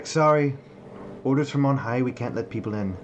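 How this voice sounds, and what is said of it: Changed accent for a character. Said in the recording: “as my accent changes.”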